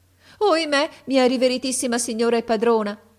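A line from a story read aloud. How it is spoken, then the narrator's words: Exclaimed. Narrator (Italian): ella esclamò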